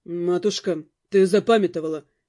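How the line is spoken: Snorted. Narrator (Russian): хмыкнул Дамиан

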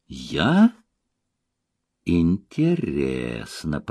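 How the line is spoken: Drawling. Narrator (Russian): протянула Глафира

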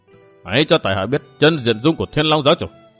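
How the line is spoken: Harsh, menacing voice. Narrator (Vietnamese): y gằn giọng

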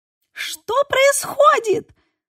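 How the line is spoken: Shrieking. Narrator (Russian): завизжала Мия

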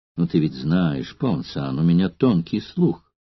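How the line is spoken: Calm but menacing. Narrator (Russian): промолвил Сулла спокойно, но грозно

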